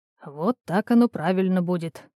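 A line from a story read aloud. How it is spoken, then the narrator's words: Quiet. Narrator (Russian): тихо проговорил он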